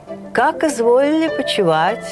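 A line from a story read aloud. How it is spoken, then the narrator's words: Loud manly speech. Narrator (Russian): громко и мужественно сказал на ходу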